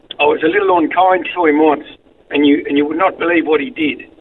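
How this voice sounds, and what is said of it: Irish accent. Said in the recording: “a wonderful accent, originally from Ireland”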